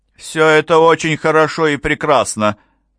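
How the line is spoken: Rude interruption. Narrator (Russian): сказала она, грубо прерывая его

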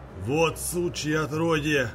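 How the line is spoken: Old man roaring. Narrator (Russian): взревел дед

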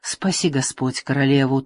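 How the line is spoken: Hurried reply. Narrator (Russian): торопливо отозвалась Мадилла

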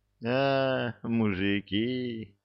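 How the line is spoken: Moaned. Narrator (Russian): простонал

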